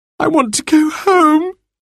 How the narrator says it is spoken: she wailed

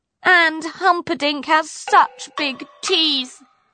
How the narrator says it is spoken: wailed Poppy

